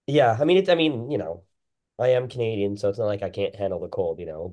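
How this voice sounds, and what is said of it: Hoarse, sore-throat voice. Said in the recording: “I have a little bit of a sore throat”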